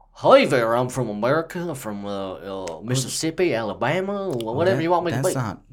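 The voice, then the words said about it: Put-on Southern American accent. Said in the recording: “give us your best American accent ... That's not bad ... It's very southern. Very southern.”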